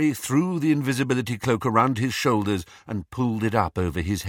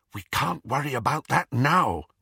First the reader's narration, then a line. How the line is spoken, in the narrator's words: whispered Hermione